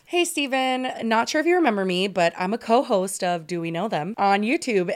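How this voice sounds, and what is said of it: Formal phone voice. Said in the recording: “phone voice ... I'll do it how I do meetings.”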